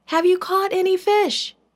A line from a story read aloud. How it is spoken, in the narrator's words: The man called out